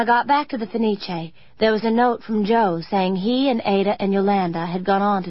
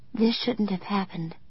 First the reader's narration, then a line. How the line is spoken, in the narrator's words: I whispered